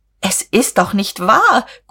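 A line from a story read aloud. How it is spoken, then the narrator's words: Shrieked. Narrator (German): Guste kreischte auf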